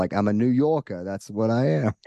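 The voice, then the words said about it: Put-on New York accent. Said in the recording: “How's my accent?”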